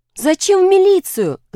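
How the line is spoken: Pleading. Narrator (Russian): взмолился Толя

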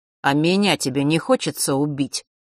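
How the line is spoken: Boy's sudden snort. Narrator (Russian): хмыкнул вдруг мальчик

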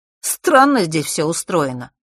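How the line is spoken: Skeptical snort. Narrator (Russian): хмыкнул Фэш

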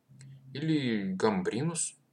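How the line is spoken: Uncertain prompting. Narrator (Russian): неуверенно подсказал Матвей

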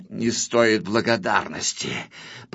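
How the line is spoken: Mutter. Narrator (Russian): пробормотал Грифель

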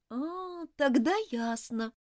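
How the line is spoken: Drawling. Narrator (Russian): протянула Элизабет

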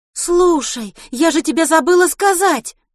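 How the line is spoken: Exclaiming. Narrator (Russian): воскликнула Милослава

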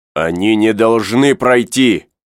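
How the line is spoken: Shouting. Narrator (Russian): закричал Пенкроф

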